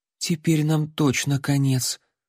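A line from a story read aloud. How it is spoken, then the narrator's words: Terrified whisper. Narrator (Russian): с ужасом прошептал Алан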